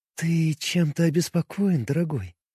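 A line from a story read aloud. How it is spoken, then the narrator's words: Tender caring coo. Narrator (Russian): Нежно, с заботой, проворковала она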